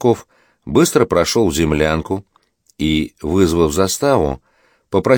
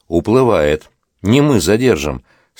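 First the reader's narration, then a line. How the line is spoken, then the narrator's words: Regretful sigh. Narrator (Russian): с сожалением вздохнул Рублев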